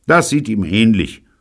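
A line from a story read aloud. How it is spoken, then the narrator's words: Mocking. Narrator (German): höhnte David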